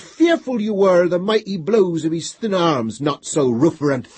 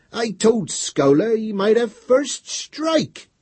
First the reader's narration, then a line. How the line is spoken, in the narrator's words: said Rufferant, almost whining